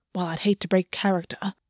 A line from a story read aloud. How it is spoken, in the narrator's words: August muttered